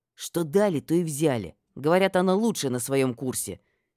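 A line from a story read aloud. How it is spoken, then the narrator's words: Displeased hiss. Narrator (Russian): недовольно прошипел один из блондинов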